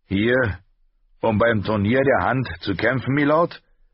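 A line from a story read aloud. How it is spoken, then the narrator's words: Guard calling out. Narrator (German): rief ein Gardist ihm zu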